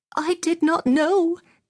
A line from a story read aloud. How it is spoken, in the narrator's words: the mem sahib cried